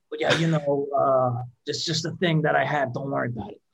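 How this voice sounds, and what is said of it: Raspy-voiced impression of someone. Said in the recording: “This is my Tim impression. ... he's got a raspy voice.”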